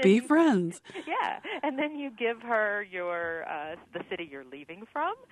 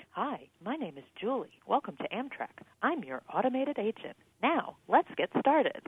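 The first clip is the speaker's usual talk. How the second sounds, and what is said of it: Imitates automated female phone voice. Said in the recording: “the automated system is a woman's voice ... do an impersonation”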